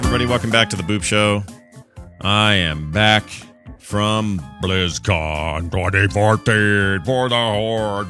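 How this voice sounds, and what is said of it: Strained, not-normal voice. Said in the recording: “My voice is still a little bit jacked... Not my normal”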